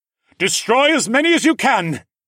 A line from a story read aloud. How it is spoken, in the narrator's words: Aeron yelled